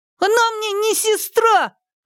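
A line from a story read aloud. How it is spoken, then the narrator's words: Sudden shout. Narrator (Russian): вдруг крикнул Хуянь-Юнь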